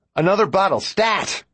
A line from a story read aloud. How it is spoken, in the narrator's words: I shout